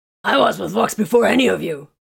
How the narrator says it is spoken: Corvin growled

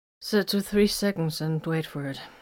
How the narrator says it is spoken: commanded a little unsteadily

